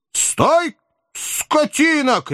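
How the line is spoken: Shouting man. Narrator (Russian): кричал господин

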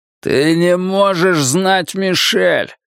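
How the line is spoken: Growl. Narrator (Russian): прорычал он

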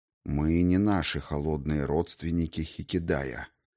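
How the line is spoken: Quiet reply. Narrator (Russian): тихо ответил мой господин

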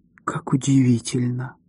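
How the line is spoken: Whisper. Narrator (Russian): прошептала она

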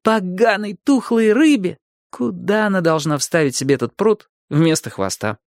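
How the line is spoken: Giggling despite being upset. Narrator (Russian): Ки, как не огорчен был, не удержался, хихикнул

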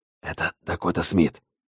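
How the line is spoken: Bartender whispering in ear. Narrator (Russian): шептал между тем на ухо бубновому Джиму бармен

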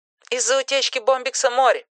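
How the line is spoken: Plain. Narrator (Russian): ответила она

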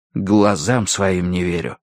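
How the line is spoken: Whisper. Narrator (Russian): шепнул я Верити

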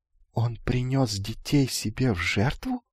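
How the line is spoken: Quiet sly question. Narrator (Russian): тихо спросил лукавый

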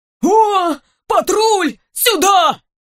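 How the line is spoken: Shout. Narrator (Russian): Не знаю, кто кричал, но точно не сборщик

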